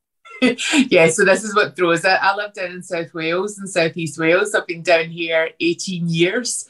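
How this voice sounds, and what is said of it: Softened Scottish Glasgow accent. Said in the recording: “This is accent softer. I'm from originally outside Glasgow... I have been with Scottish people an awful lot... I've got slightly faster”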